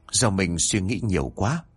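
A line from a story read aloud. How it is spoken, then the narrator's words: Sighing mutter. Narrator (Vietnamese): Minh thở dài một hơi rồi lẩm bẩm nói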